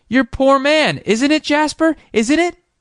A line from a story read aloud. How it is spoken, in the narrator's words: cried